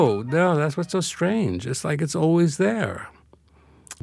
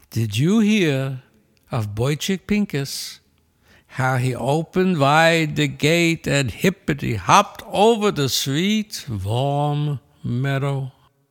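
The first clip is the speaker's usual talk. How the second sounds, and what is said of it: Yiddish accent. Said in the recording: “your Yiddish accent”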